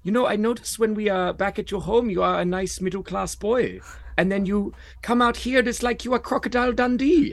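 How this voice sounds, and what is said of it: Imitation of a German comedian. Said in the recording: “a German comic said that to me. And I'm going to do his.”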